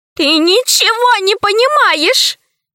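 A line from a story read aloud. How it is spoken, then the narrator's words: Tearful, squirrel. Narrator (Russian): заговорила сквозь слезы белка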